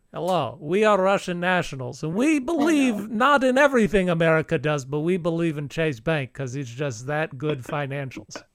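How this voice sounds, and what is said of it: Exaggerated put-on Russian accent. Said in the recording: “that uh, incredibly the insulting accent”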